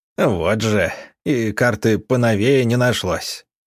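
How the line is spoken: Grumbling. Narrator (Russian): пробурчал Вадим Георгиевич

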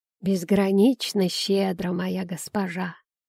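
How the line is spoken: Creaky old man's voice. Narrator (Russian): проскрипел старик Орниш

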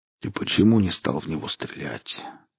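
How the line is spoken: Quiet, tired, resigned. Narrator (Russian): спросил тихим, усталым голосом, словно это уже не имело значения

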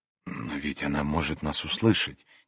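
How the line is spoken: Quiet. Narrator (Russian): тихо сказал он

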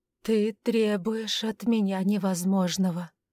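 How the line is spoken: Dull, muffled reply. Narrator (Russian): наконец глухо ответила Ирма

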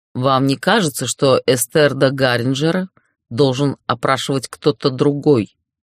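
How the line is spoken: Cold inquiry. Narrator (Russian): холодно поинтересовался Ярлис

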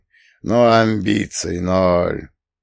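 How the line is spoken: Thoughtful drawl. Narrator (Russian): задумчиво протянул Фреда

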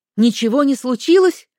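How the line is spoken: Near shout. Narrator (Russian): почти выкрикнула я

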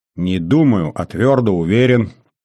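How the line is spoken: Snorting chuckle. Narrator (Russian): хмыкнул старший лейтенант

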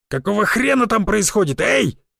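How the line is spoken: Guard's angry yell. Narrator (Russian): заорал охранник

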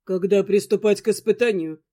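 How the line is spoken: Even steady voice. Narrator (Russian): Прежним ровным голосом повторил Дантес

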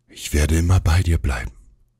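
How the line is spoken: Breathy, fading whisper. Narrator (German): haucht, die Worte verklingen

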